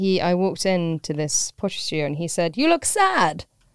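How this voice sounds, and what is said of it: Usual voice. Nothing is said of it.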